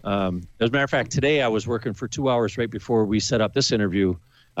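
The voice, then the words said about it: Good radio voice. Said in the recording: “You have a really good voice. You have a really good radio voice.”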